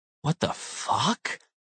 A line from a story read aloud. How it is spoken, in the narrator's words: gasped